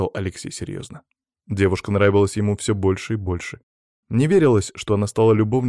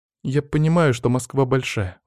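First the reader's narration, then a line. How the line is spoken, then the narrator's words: Sighing. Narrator (Russian): вздохнула Маша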